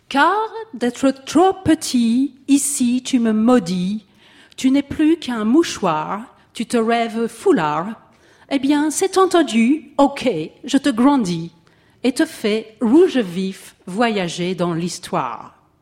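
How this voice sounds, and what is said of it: French spoken with put-on English accent. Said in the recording (French): “il parle avec un accent anglais”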